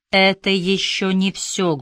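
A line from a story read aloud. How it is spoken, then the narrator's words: Muffled continuing. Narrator (Russian): глухо продолжил Дуг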